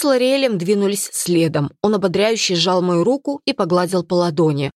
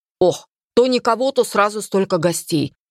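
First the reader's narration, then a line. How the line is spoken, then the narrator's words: Father's grumble. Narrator (Russian): проворчал папа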